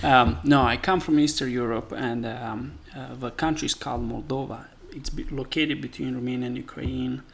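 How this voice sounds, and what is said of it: Noticeable foreign accent. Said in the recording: “obviously you can tell that ... has an accent”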